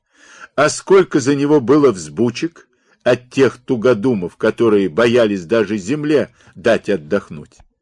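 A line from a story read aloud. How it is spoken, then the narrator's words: Laughing. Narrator (Russian): Варивон засмеялся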